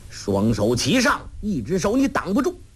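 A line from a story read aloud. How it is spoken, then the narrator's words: Shouted. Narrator (Chinese): 黄药师叫道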